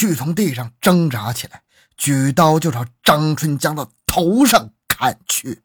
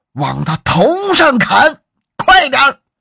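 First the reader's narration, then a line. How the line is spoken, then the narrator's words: Desperate shout. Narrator (Chinese): 王瑞贤眼看就要被张春江掀翻了，就大喊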